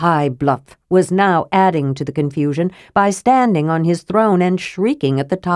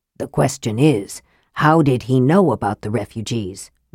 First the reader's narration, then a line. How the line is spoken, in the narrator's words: Raistlin hissed